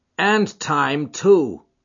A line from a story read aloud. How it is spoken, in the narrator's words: cried Ted Baldwin